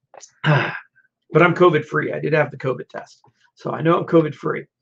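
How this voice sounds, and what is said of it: Hoarse, strained voice. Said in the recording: “I'm kind of losing my voice here”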